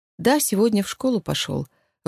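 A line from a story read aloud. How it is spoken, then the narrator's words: Even tone. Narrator (Russian): ровным тоном отозвалась Женя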